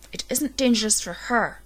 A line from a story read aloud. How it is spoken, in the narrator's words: she spat